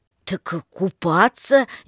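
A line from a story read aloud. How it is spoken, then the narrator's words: Hesitant, unsure. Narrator (Russian): неуверенно произнес он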